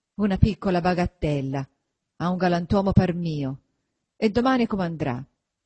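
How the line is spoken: Grumbling. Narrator (Italian): brontolando sempre

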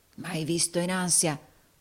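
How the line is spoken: Murmured. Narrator (Italian): mormorò Rodolfo

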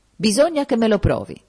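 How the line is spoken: Exclamation. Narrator (Italian): ha esclamato

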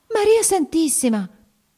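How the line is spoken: Woman exclaiming. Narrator (Italian): esclamò ella

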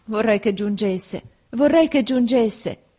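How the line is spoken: Sad exclamation. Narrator (Italian): esclamai, presa dalla tristezza

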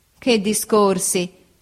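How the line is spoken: Laughing. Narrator (Italian): disse ridendo Steerforth

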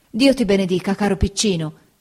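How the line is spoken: Exclaimed. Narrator (Italian): esclamò Peggoty

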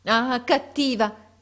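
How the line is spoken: Exclaimed. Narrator (Italian): esclamò

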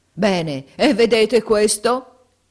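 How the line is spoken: Yelled. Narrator (Italian): urlò Squeers

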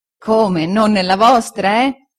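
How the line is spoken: Laughing reply. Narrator (Italian): rispose Omer ridendo

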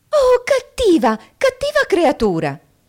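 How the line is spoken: Indignant shout. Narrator (Italian): gridò sdegnata, perché sapeva bene che cos'è avere un ombrello gocciolante intorno alle orecchie

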